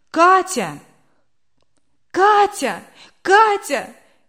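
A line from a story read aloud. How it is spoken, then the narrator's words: Wife shouting. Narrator (Russian): кричала супруга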